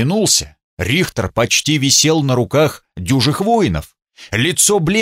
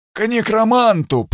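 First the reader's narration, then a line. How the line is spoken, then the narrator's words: Hoarse rasp. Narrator (Russian): прохрипел он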